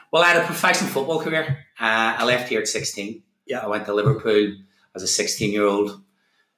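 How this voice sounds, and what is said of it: Northern Irish accent. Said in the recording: “Northern Irish accent.”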